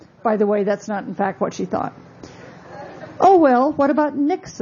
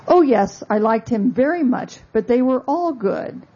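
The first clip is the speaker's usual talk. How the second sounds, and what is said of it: Weak attempt at British accent. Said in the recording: “I can't do a British accent, I'm sorry.”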